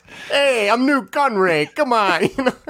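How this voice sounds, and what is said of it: Bad New York-style accent impression. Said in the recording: “Oh, my God. The New Yorker's out again. ... That was awful.”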